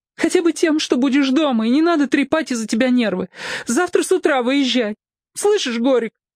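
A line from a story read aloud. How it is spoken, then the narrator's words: Sobbing. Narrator (Russian): Она всхлипнула опять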